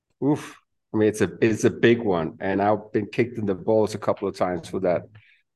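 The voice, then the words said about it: Non-native English, Danish accent. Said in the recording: “based on your accent, doesn't sound like you're a native of, you know, ... Denmark.”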